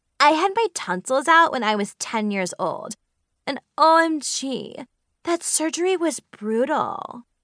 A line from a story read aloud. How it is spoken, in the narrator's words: Mackenzie said dramatically